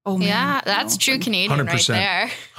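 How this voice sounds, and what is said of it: Exaggerated Canadian accent. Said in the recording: “I went full Canadian accent there”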